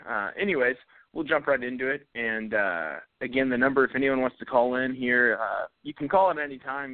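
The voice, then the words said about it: Slightly raspy, fading voice. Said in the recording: “I'm starting to lose my voice. I went to a music festival and stuff this weekend, so I'm a little bit raspy sounding.”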